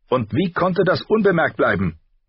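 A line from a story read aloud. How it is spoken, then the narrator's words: Sharp. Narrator (German): sagte scharf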